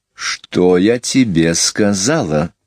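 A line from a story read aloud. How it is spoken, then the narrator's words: Clear, cold voice. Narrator (Russian): произнесла Мэри Поппинс ясным, холодным голосом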